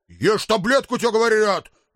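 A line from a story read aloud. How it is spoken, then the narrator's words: Losing patience, barking. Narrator (Russian): не выдержав, рявкнул я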